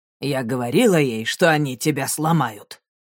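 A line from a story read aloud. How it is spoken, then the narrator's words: Grumbling. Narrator (Russian): проворчала она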